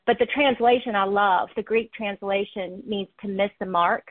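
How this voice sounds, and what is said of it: Southern American accent. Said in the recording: “I have a Southern accent”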